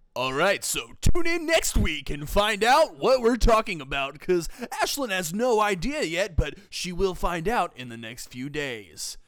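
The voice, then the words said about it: Radio announcer voice. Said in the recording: “Close out my podcast in your radio voice.”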